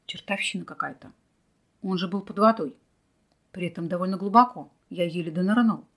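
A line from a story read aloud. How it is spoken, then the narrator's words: Puzzled muttering. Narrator (Russian): недоуменно бормотал Михаил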